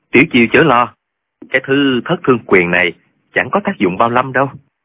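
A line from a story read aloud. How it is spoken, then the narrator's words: Calm smiling voice. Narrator (Vietnamese): Trương Vô Kỵ ... mỉm cười nói với Tiểu Chiêu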